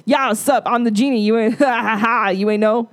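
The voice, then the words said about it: Imitates another person's voice. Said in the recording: “That impersonation was problematic.”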